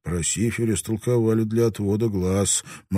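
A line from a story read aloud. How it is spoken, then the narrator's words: Gloomy, to himself. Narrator (Russian): мрачно напомнил себе Родригес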